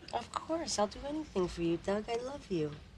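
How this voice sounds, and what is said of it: Put-on flirty accent. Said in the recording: “a little accent, too. And not Don Zimmer's.”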